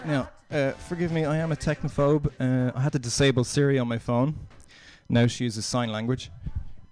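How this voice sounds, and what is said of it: Irish accent. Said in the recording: “I moved over here about a month ago from Ireland, as you can probably tell from my voice.”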